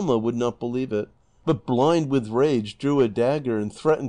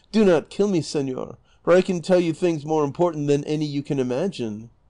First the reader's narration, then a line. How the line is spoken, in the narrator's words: She, in her fear, not knowing what she was saying, exclaimed